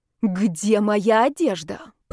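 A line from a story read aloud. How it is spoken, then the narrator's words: Growled. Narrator (Russian): прорычала я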